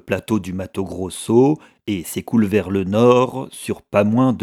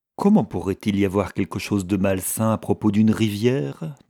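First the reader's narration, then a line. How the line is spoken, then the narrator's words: Plain. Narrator (French): demanda-t-elle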